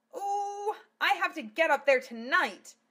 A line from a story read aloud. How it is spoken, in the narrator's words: Martina wailed out the open window